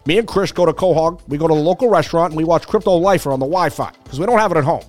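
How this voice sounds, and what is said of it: Cartoon character voice impression. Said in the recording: “I can't even do the voices. ... Can I get Peter in here? ... Peter Griffin. I have a little bit of a cold”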